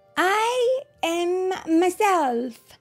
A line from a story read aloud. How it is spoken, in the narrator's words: he shouted, full of joy